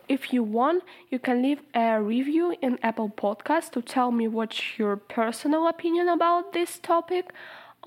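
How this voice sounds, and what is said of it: Speaks with an accent. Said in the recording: “I'm sometimes annoying, especially with my accent.”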